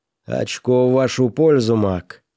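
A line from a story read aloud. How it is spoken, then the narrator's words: Loud booming bass. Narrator (Russian): громко басил Уокер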